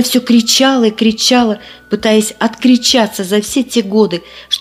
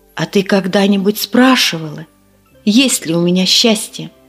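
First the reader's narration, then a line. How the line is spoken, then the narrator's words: Quiet question. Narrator (Russian): тихо спросил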